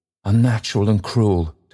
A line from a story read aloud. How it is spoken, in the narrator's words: Toby cried